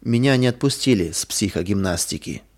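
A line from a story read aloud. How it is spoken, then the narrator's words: Sad, dull voice. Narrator (Russian): Лиля грустная потухшим голосом сказала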